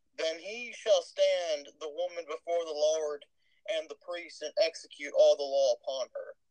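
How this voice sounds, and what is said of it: Texas accent. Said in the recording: “I've been suppressing my Texas accent this whole time. It really came out when I was reading that.”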